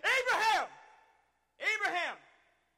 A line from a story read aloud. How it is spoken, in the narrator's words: the angel of the Lord called out to him from heaven